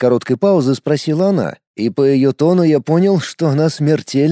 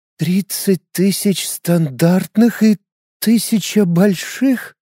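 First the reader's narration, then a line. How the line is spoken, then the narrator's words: Trembling voice, asking again. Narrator (Russian): Дрогнувшим голосом переспросила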